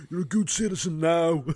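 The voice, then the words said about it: Drunken-sounding imitation of another person's voice. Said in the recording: “Your accent. ... You sound like a drunken... bad version of Schwarzenegger.”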